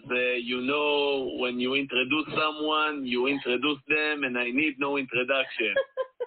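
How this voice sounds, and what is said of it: Fake heavy Israeli accent. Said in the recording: “That accent and that voice sounds familiar ... that accent that we just heard for a second ... That's the fake heavy Israeli”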